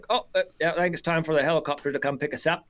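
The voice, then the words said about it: Good put-on New Zealand accent. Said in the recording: “that was a pretty good New Zealand accent”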